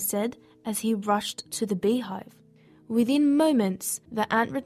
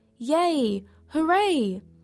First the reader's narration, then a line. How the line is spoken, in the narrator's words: her colony shouted